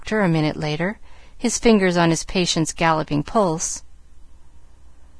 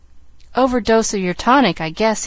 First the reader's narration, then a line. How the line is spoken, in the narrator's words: he laughed